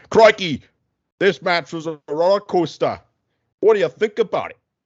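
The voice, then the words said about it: Put-on Australian accent. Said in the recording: “Is that your Australian accent”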